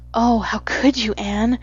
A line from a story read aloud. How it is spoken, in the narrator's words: breathed Diana half reproachfully, half admiringly